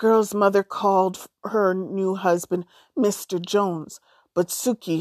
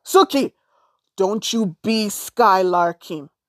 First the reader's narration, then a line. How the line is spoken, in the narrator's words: her steppa would shout